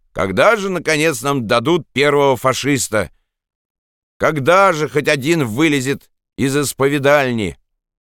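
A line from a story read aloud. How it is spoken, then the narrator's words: Peasant shouting. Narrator (Russian): какой-то крестьянин крикнул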